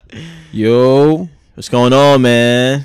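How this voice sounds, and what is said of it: Very loud, yelling into the mic. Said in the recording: “Why are you so loud? ... Be yelling at the fucking mic.”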